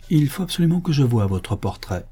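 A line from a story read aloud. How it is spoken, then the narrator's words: Persuasive tone. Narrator (French): je dis d'un ton persuasif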